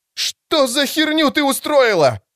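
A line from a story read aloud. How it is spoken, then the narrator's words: High frightened male scream. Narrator (Russian): завопил высокий и испуганный мужской голос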